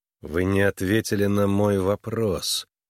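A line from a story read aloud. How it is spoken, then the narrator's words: Through gritted teeth. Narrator (Russian): процедил сквозь зубы Харлан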